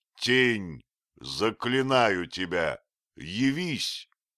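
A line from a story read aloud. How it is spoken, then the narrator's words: Shout. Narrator (Russian): я крикнул это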